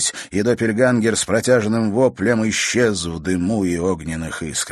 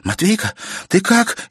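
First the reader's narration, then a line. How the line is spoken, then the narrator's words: Frightened exclamation. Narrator (Russian): испуганно воскликнула она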